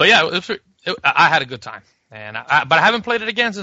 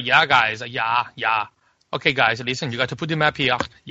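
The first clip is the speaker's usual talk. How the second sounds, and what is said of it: Put-on German accent. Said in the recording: “I don't know why I'm imitating German”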